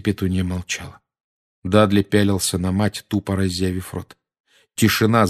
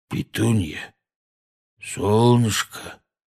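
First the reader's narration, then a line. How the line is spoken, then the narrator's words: Tender cooing. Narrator (Russian): нежно проворковал дядя Вернон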